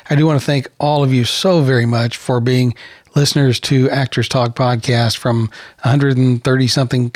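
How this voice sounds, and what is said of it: Strained, failing voice. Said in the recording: “I'm about to completely lose my voice.”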